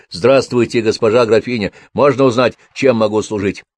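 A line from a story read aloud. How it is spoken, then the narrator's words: Timid babbling. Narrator (Russian): парнишка пролепетал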